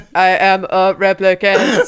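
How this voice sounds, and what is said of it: Robot voice. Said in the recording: “I could do a cool robot voice. ... they speak like robots”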